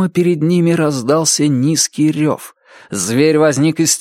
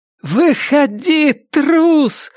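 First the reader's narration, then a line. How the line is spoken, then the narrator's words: Shouting huntress. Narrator (Russian): закричала охотница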